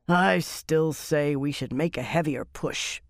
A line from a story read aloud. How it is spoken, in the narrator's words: Lear grumbled drunkenly